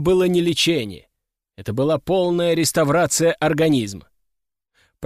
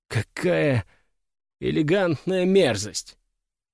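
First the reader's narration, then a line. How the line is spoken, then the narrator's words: Muttered under breath. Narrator (Russian): пробормотал я себе под нос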